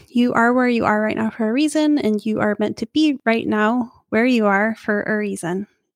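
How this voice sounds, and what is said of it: Froggy, rough voice. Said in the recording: “my voice is froggy again. My allergies are still really bad.”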